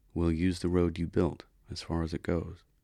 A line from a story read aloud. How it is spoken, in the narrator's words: said softly